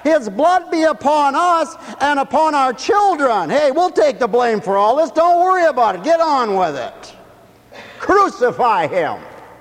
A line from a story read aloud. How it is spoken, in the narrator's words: the crowd shouted back